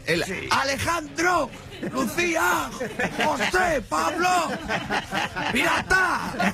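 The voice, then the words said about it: Mother shouting names, stressed final syllable. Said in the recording (Spanish): “el acento en la O final”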